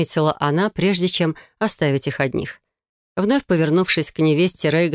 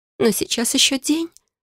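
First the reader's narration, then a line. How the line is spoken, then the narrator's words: Weak tearful objection. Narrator (Russian): слабо возразила Алфея и снова всхлипнула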